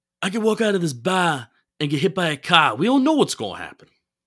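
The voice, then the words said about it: Impression sounding like a Godfather mobster. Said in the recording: “I could do a Dave Gettleman accent ... You don't sound like Dave Gettleman. You sound like the Godfather. ... You sound like Don Corleone.”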